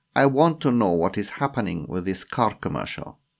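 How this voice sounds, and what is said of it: Strong put-on Russian accent. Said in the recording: “in a strong Russian accent.”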